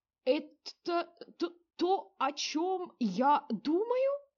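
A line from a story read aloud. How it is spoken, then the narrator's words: Strained, forced out. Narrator (Russian): с трудом выдавил из себя генерал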